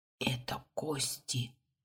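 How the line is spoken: Breathless whisper. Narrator (Russian): прошептал Юнга, боясь дышать

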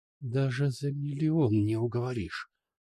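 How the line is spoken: Hissing reply. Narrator (Russian): зашипела в ответ

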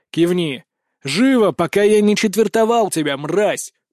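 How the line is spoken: Growl. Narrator (Russian): прорычал я

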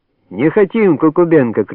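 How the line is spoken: Shouting woman. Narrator (Russian): кричала другая

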